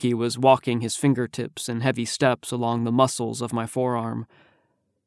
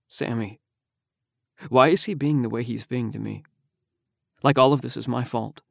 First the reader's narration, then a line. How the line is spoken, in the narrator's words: Lowering my voice to a volume that hovered just between Haruki and me, I said